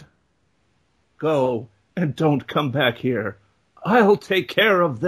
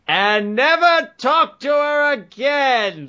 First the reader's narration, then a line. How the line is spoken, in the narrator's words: the commander yelled